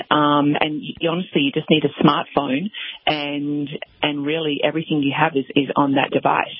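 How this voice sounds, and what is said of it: Australian accent. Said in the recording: “Say it in your Australian accent.”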